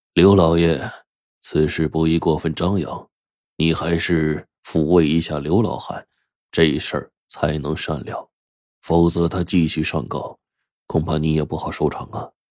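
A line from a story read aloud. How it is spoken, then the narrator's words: Hurried, soft voice. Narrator (Chinese): 王如清赶紧就轻声说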